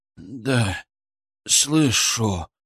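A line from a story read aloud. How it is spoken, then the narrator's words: Young man moaning. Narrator (Russian): простонал парень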